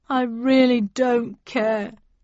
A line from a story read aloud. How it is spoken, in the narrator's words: he said sadly